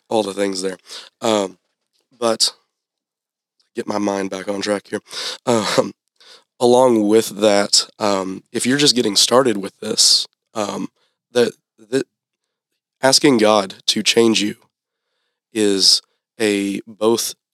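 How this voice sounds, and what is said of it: Voice giving out, strained. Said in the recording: “my voice is going out there on me. it's been a long day”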